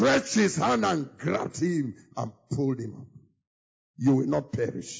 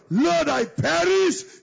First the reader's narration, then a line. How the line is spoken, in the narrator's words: he cried out